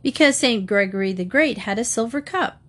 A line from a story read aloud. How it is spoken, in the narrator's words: the father replied